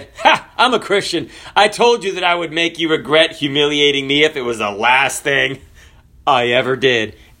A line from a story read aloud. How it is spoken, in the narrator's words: The young man laughed and said